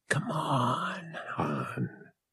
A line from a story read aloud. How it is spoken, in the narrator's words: she whispered